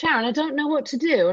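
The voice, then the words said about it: Weak put-on London accent. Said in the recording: “my cousin from London ... Is that really bad? Is that a bad accent? ... we got to work on it”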